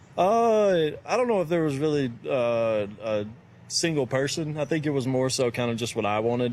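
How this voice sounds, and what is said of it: Arkansas accent. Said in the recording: “You haven't lost that accent, though. ... I go back to Arkansas after the season every year, so it probably fades a little bit during the season”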